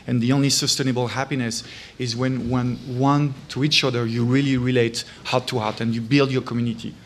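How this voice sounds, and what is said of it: French accent. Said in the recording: “as a Frenchman, you can't hide my accent despite 15 years in US”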